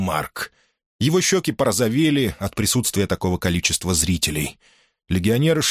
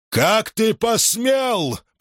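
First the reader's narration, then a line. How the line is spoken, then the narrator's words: Booming, thunderous. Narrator (Russian): прогремел он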